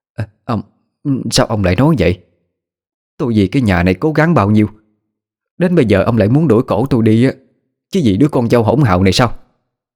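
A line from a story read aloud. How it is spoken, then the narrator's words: Woman stammering. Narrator (Vietnamese): Miệng bà lắp bắp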